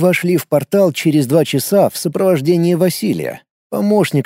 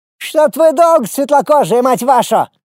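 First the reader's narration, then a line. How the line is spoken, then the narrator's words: Shout. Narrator (Russian): крикнул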